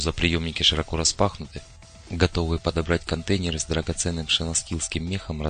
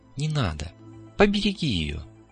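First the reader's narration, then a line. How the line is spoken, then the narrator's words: Regretful sigh. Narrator (Russian): С сожалением вздохнула Элисия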